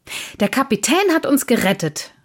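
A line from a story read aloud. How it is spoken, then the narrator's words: Boy calling out, interrupting. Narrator (German): rief der Junge dazwischen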